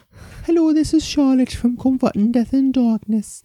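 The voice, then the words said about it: Put-on Geordie accent. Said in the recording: “Sarah Millican? ... it's the easiest Geordie accent I can do as a woman.”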